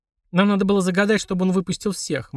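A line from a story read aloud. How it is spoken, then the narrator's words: Gloomy. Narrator (Russian): мрачно сказала Полина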